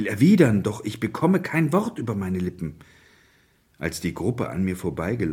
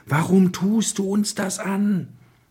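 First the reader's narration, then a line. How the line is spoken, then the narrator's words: Distressed shout. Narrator (German): Einer von ihnen schaut mich mit bekümmertem Gesicht an und schreit mich an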